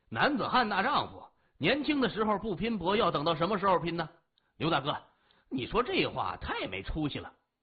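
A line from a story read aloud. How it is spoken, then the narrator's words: Loud, dismissive. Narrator (Chinese): 李爽听了不以为然，他大声说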